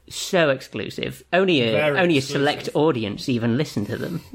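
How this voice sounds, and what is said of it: Crazed, over-excited put-on voice. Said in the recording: “talking like a sort of crazed mid-90s Mormon”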